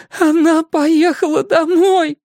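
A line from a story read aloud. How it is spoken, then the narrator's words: Sobbing. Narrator (Russian): С губ Кей сорвалось рыдание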